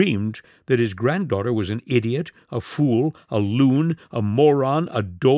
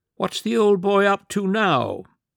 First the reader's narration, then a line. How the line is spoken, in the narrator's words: a very thin, squeaky voice asked